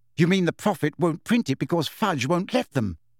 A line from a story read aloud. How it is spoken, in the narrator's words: said Hermione irritably